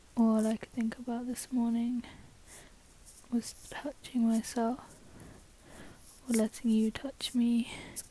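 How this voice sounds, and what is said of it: English accent. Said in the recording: “I live in England, I don't know if you can tell by my accent.”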